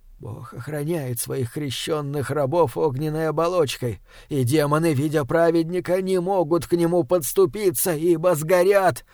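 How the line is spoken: Trembling mutter. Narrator (Russian): Бормотал отец Максимилиан, но губы, прижатые к символу веры, предательски дрожали

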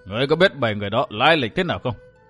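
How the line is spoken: Heavy-sighing worried old woman. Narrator (Vietnamese): Mụ già thở dài sườn sượt, dường như đầy vẻ ưu tư, nhưng chỉ hỏi lại một câu

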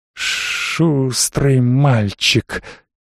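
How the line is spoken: Sudden hissing voice. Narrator (Russian): неожиданно шипящим голосом сказала она

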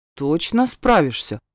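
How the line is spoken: Doubtful question. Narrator (Russian): недоверчиво переспросил охранник

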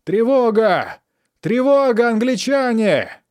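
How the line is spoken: Desperate piercing scream. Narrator (Russian): Отчаянным усилием он вырвался из рук солдата, сжимавшего его горло, и пронзительно закричал

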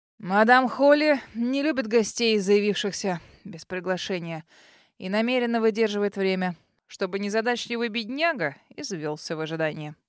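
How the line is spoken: Uncle's wry snort. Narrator (Russian): хмыкнул дядя

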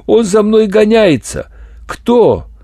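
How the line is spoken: Desperate scream. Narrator (Russian): она отчаянно закричала

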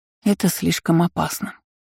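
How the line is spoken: Sigh. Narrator (Russian): вздохнула

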